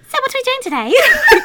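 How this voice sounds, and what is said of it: Bad put-on British accent. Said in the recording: “talking really high and fast ... my really shitty British accent”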